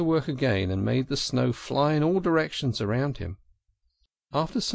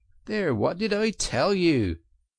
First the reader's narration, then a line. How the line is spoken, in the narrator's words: exclaimed the Rat in great triumph